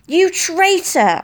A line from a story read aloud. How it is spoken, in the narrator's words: screamed